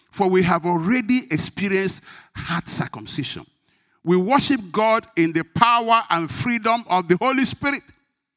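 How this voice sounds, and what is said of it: Speaks English with an accent. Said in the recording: “If I have accent, try and understand.”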